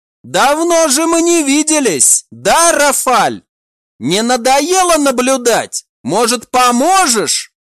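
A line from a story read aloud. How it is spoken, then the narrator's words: Loud shout. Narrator (Russian): Громко прокричала Мирал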